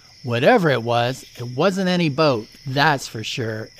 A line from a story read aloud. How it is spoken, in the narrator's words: Eric said